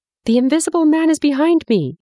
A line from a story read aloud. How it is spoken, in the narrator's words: he screamed as he ran